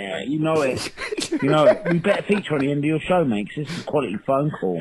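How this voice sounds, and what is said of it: Cockney London English accent. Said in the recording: “Where do you place this accent ... I'm thinking Cockney ... close to London, probably Essex or something”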